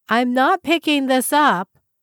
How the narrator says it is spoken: she yelled again

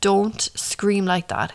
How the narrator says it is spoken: he spit through clenched teeth

